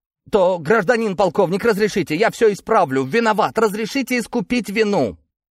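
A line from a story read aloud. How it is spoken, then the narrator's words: Strained, hopeful shouting. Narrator (Russian): Все это он прокричал с надрывом и надеждой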